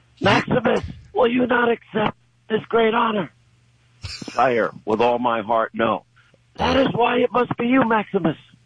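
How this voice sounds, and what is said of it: Imitation of movie character voices. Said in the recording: “That's my best imitation.”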